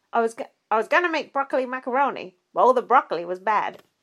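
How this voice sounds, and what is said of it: Poor imitation of another person's voice. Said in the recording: “That was a bad impression”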